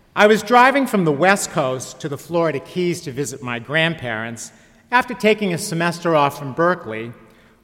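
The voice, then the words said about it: California surfer dude accent. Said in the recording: “You may have guessed from my accent that I'm not from New Orleans. I'm California born and bred. A real surfer dude.”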